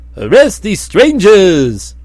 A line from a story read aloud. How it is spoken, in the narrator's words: commanded Quietawful in a voice like a roar